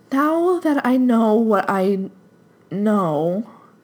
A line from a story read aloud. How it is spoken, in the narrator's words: faltered, lost her pace